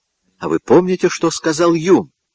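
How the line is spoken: Exclaiming. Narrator (Russian): воскликнул Гамильтон

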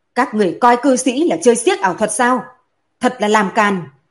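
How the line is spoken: Loud shout. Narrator (Vietnamese): Đỗ Dự ... quát lớn

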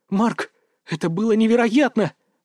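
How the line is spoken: Exclamation. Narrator (Russian): воскликнула Аня

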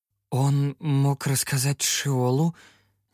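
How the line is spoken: Uncertain. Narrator (Russian): неуверенно проговорил я

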